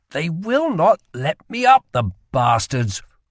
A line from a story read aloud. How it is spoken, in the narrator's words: grumbled Rye